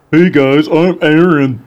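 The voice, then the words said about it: Imitates another person's voice. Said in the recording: “that's not a good Aaron impression. ... I felt like it was pretty spot on, actually.”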